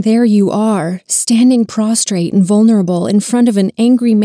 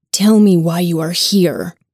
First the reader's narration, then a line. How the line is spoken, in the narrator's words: Father Martin's angry growl inquires